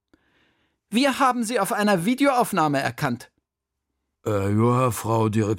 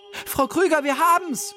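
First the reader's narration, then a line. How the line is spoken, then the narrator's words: Called out. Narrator (German): rief Sophia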